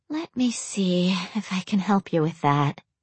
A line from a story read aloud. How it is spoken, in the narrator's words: she mumbled